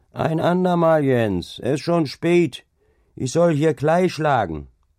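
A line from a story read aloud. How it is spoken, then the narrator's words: Calling out. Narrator (German): rief ihm entgegen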